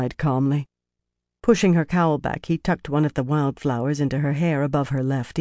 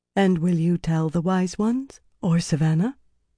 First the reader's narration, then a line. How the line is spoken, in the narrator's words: She was startled when that came out in an even tone